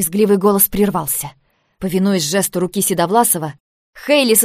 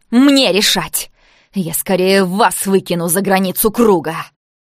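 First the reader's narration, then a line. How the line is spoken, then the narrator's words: Growling. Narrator (Russian): Мне кажется, я рычала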